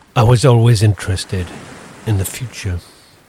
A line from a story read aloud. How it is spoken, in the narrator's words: muttered the man